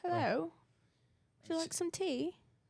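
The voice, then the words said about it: Put-on British accent. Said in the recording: “You go into a British accent.”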